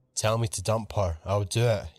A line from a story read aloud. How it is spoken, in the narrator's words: he said